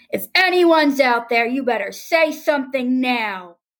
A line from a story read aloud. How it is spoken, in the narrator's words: mustering up enough courage to scream